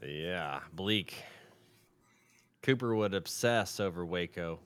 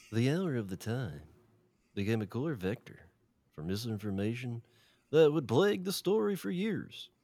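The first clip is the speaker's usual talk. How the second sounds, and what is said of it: Hipster-like put-on voice. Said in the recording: “A beast voice ... Like a hipster.”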